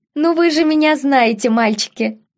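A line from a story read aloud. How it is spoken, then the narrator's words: Ringing laugh. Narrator (Russian): звонко рассмеялась леди Мэри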